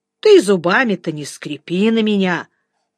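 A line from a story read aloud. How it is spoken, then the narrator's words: Calm. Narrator (Russian): спокойно ответил Жеглов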